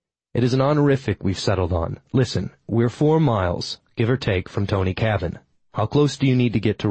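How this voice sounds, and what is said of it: Usual voice. Nothing is said of it.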